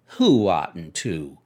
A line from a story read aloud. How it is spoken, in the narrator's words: inquired Daisy coldly